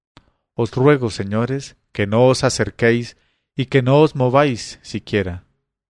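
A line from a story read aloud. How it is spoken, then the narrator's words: Calm low voice, girl. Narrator (Spanish): la niña estaba tranquilamente sentada y en voz baja les dijo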